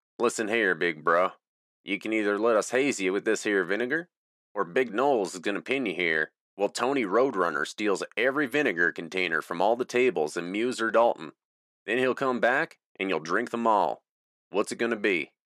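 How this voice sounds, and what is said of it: Put-on country accent. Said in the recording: “I said in a country accent”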